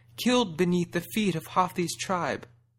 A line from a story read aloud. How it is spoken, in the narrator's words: a doe wailed